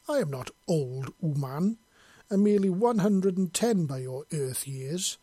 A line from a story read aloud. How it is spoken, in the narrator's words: she growled